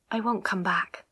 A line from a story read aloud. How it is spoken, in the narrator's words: she said quietly